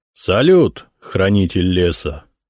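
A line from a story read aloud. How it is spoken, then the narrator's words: Solemn. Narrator (Russian): торжественно произнес Библиус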